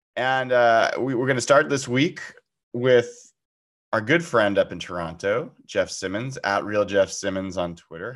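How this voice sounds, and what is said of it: Weakened voice from a cold. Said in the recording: “my voice is a little bit less than normal. Been fighting through a cold ... my voice gives out a little bit here and there”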